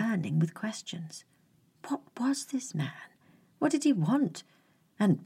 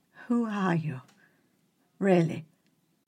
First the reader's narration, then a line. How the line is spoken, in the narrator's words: asked, his voice quivering